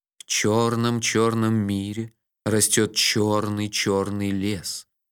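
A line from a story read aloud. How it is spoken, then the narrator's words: Sepulchral voice. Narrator (Russian): могильным голосом начал я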